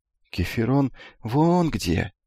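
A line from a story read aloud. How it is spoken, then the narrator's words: Quiet. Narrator (Russian): тихо сказал Эфикл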